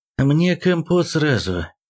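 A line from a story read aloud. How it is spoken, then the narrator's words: Gloomy joke. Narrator (Russian): мрачно сострил Сорокин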